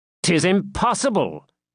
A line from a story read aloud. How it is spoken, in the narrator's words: cried Prince John, with well-feigned astonishment